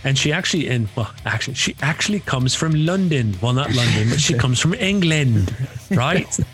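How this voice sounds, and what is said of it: Poor put-on English accent. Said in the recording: “That's possibly the worst English accent I've ever heard.”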